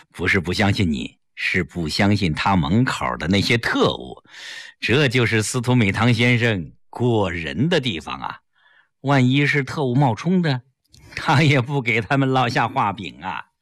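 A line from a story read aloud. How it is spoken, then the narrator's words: Smiling. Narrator (Chinese): 齐长鹏一笑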